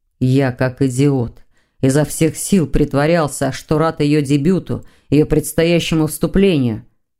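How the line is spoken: Growled. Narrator (Russian): зарычал Сазонов

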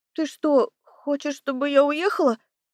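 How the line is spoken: Trembling voice. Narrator (Russian): спросила я дрогнувшим голосом

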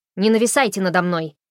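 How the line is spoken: Barking. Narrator (Russian): рявкнула она

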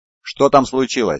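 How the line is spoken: Plain. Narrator (Russian): спросил Люций

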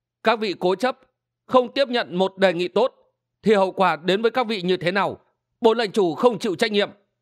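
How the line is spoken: Loud laughter. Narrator (Vietnamese): Triệu Sĩ Nguyên cười lớn

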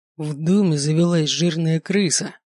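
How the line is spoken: Growled. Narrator (Russian): прорычал Алекс

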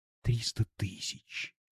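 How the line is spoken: Dreamy dazed whisper. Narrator (Russian): Нины, шептавшей почти в забытьи

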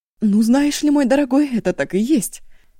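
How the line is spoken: Angry outburst. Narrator (Russian): взвелась Ашун

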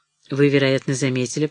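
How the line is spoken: Even voice. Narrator (Russian): продолжал Летто все тем же ровным голосом

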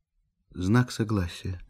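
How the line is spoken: Quiet. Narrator (Russian): договорила она тихо

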